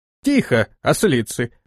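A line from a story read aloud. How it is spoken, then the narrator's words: Sharp shout. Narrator (Russian): прикрикнула Зухра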